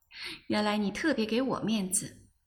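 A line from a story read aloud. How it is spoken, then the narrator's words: Laughing. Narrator (Chinese): 我笑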